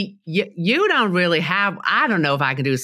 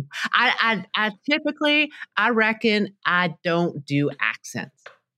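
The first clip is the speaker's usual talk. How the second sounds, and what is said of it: Put-on Southern drawl. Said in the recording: “can you do a Southern accent? ... a Southern drawl”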